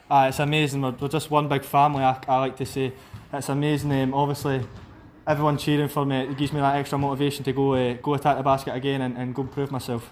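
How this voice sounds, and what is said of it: Broad Scottish accent. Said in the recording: “you've got quite a broad Scottish accent.”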